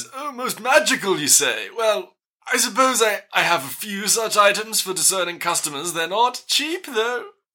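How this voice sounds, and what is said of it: Lilting shopkeeper character voice. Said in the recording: “the lilt of your voice”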